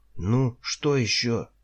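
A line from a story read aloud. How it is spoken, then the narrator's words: Yelling. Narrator (Russian): заорал я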